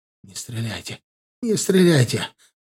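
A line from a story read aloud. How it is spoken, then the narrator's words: Frightened babbling plea. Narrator (Russian): залепетал Сорокин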